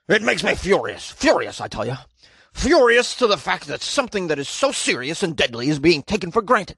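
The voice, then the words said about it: Imitates another person's voice. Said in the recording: “Some city councilor probably talks like this. ... That was my impression of McKinstry, the city council member.”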